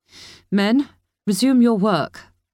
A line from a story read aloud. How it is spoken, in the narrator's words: barked Governor Bennett, louder in Kira's opinion than should come from such a petite woman